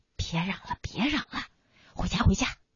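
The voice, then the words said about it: Quiet, pleading low voice. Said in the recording (Chinese): “小声求着”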